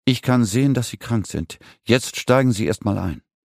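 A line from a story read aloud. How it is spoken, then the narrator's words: Firm voice. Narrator (German): sagte mit fester Stimme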